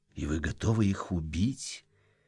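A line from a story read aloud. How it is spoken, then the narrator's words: Quiet question. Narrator (Russian): тихо спросил еврей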